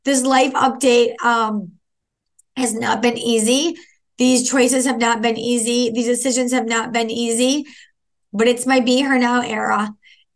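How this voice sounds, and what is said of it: Tearful, crying voice. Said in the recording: “As you can hear by my voice right now and the tears that are running down my face”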